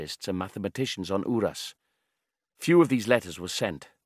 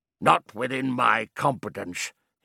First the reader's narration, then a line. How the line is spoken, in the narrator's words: would growl